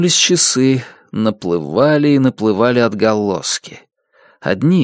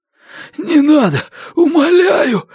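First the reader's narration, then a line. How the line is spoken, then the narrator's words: Convulsive pleading moan. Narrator (Russian): судорожно простонал мужчина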